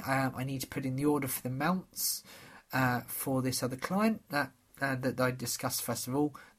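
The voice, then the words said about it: Voice slightly strained, starting to go. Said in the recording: “You might be able to tell my voice is starting to go a little bit. So I've not felt 100% recently”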